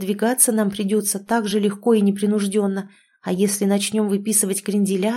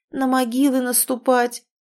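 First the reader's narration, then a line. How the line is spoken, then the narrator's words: Woman moaning. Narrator (Russian): простонала подруга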